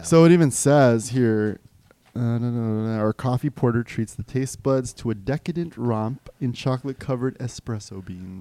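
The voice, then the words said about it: Announcer-style reading voice. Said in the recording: “Is that your sexy voice? ... No, that's my announcer voice. ... That's more like your announcer voice.”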